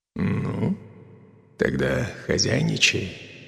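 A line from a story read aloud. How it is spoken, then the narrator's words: Hoarse voice. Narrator (Russian): хрипло произнес Дэн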